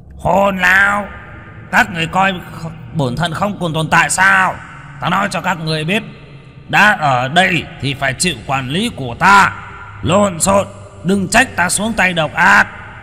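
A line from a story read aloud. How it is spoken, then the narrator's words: Stern shout. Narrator (Vietnamese): Trương Hống quát lên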